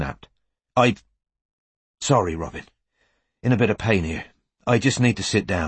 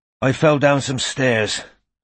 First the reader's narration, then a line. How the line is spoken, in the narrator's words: said Strike, panting a little